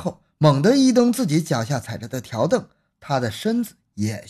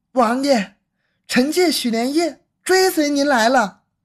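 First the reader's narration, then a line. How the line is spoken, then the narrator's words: Loud call. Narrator (Chinese): 八福晋许连夜此刻高声喊了一声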